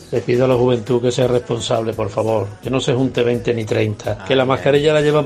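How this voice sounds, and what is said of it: Galician or Asturian Spanish accent. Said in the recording (Spanish): “¿Qué tirón tenemos en la zona de Galicia? ¿Cómo se notaba por el acento? ... Pero estaba rondando el límite, fue con Asturias, ¿eh?”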